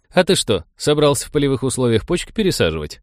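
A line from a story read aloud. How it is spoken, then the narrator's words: Chuckling. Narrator (Russian): хохотнул Коля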